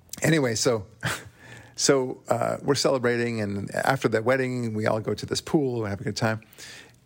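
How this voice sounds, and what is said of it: Thick Israeli accent. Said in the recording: “I'm Israeli, as you know. You could probably tell by my thick accent.”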